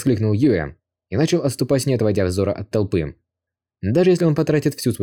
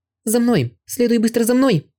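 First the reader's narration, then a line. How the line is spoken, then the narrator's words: Shouted. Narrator (Russian): крикнула она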